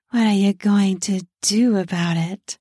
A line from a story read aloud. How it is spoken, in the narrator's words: She breathed